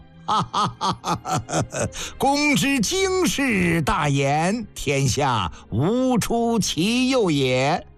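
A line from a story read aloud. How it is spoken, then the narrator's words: Loud laughter. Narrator (Chinese): 范雎大笑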